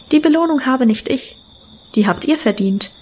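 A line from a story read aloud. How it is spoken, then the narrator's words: Calm speech. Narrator (German): sagte ruhig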